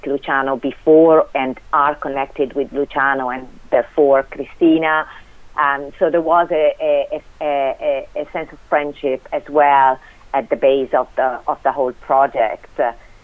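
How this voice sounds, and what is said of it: Italian accent in English. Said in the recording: “people can probably tell from your accent ... that you're not Irish born and bred. No. You are Italian ... I'm Italian and 25 years in Ireland, and I still have this accent.”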